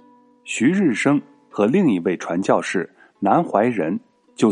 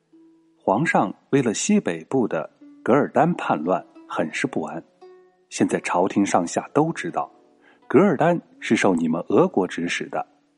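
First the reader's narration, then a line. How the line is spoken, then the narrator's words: Lowered voice. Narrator (Chinese): 压低声音说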